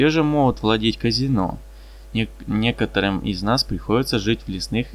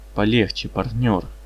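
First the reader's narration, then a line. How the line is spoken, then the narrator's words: Quiet rebuke. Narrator (Russian): тихо осадил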